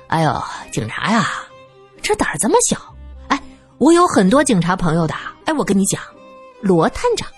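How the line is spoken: Chuckling. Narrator (Chinese): 那个人呵呵的笑着

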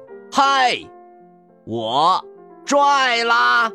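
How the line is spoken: Loud shout. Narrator (Chinese): 他大叫道

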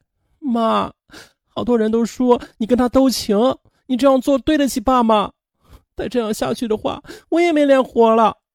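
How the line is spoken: Bursting into tears. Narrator (Chinese): 苏苏哇的就哭了起来

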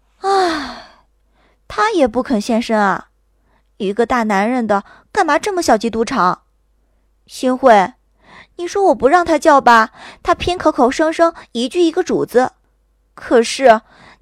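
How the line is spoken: Gloomy, resigned sigh. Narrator (Chinese): 我郁闷地 无奈地叹了口气，道

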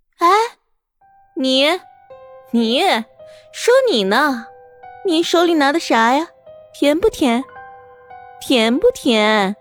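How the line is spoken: Thin shrill voice. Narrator (Chinese): 那声音尖细，贴着地面发出

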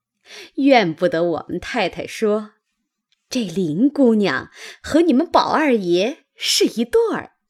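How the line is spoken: Sly sneering laugh. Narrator (Chinese): 阴笑着向袭人道

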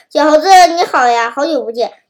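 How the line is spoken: Grinning, sly. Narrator (Chinese): 狐狸 他笑嘻嘻地说

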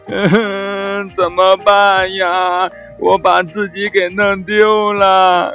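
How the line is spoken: Crying while shouting. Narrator (Chinese): 小狗一边哭一边喊着

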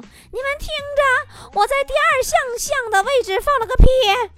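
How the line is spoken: Angry shouting. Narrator (Chinese): 老师气得大叫

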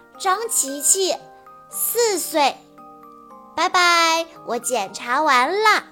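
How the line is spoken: Hurried, loud reply. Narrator (Chinese): 他赶紧大声回答说

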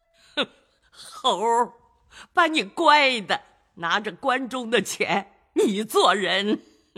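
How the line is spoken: Laughing. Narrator (Chinese): 贾母笑道

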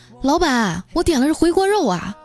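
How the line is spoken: Calling out. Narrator (Chinese): 我就喊了一声

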